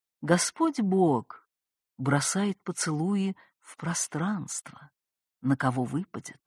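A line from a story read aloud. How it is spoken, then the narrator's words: Soft-spoken. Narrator (Russian): Лёшек негромко проговорил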